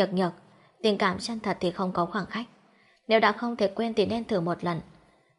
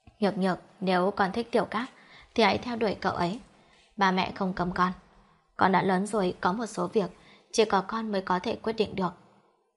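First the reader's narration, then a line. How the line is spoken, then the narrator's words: Soft, mournful sigh. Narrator (Vietnamese): bà Lâm thở dài não nuột, khẽ nói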